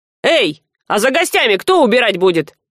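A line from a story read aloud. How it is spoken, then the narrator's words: Loud bark. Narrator (Russian): гаркнул кормилец на служанку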